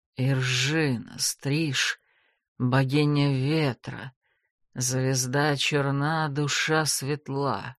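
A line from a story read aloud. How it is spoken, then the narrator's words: Feverish muttering. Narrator (Russian): бормотал он себе под нос, лихорадочно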